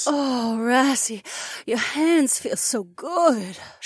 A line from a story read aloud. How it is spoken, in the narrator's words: she moaned